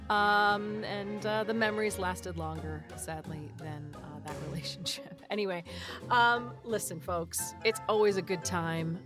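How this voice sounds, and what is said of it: Slightly hoarse voice. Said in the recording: “my voice is getting a little hoarse. I'm not going to lie. I can hear it.”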